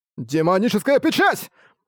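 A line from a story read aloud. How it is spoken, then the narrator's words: Sharp shout. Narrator (Russian): резко выкрикнул Арк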